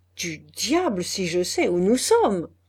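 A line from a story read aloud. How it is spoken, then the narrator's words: Exclaimed. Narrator (French): s'écria Guillaume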